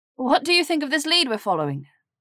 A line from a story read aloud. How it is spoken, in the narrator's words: She asked too loudly in the small space